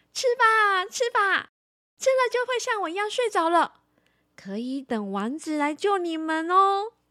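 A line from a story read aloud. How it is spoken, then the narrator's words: Loud. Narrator (Chinese): 白雪公主……大声地说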